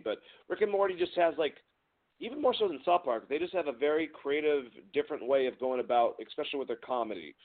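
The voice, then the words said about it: Hoarse voice. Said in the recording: “my voice is a little bit hoarse.”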